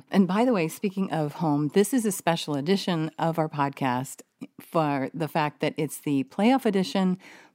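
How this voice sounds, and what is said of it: Slightly hoarse, strained voice. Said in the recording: “we were screaming... my voice is a little squirrely still... we were screaming our heads off”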